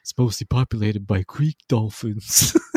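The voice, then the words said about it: Imitated cartoon character voice. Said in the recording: “Great impression”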